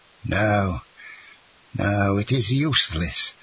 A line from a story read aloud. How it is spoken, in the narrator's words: stammered Monsieur de Villefort in a hoarse voice